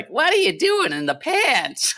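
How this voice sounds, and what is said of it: Impression of a friend's voice. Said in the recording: “That's a pretty good Holly impersonation.”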